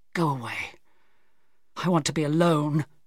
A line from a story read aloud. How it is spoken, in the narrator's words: he said miserably